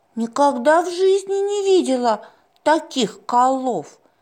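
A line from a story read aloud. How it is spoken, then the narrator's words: Exclaimed. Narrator (Russian): воскликнула Малуся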